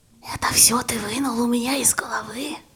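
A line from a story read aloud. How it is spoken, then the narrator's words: Near-whisper question. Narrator (Russian): почти шепотом спросила Варя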